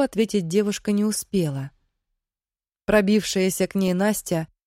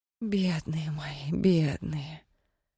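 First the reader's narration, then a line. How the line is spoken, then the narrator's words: Old woman whispering. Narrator (Russian): шептала старая цыганка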